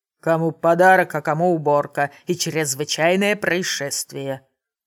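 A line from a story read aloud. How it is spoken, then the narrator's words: Grumbling mechanic. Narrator (Russian): Пробурчал механик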